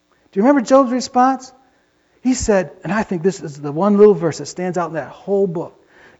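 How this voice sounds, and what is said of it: Usual voice. Nothing is said of it.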